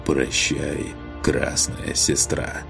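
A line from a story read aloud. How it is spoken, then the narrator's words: Werewolf's hoarse rasp. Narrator (Russian): Прохрипел оборотень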